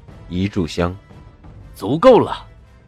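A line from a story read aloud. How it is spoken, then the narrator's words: Cold, after brief pause. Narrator (Chinese): 布莎微一沉吟，冷声道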